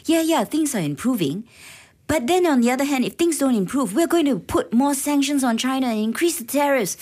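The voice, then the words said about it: Imitates another person's voice, not very good. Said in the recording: “Was that your Donald Trump impression? ... that was my Donald Trump impression. Sorry. I don't do a very good Donald Trump impression”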